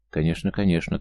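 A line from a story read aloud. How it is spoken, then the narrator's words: Hurried young woman. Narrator (Russian): торопливо согласилась девушка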